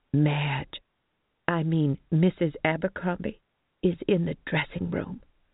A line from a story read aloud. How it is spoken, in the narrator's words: Mary announced in a moderated whisper, eyes wide with knowing